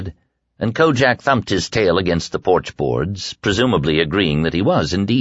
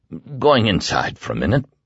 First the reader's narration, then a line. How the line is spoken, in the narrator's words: Glenn said thickly